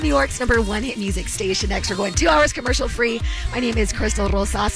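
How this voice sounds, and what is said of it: Hoarse voice. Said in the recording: “I'm getting over this laryngitis.”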